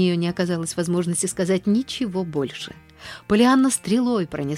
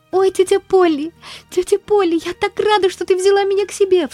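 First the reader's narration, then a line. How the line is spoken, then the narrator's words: Girl sobbing. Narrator (Russian): всхлипывала девочка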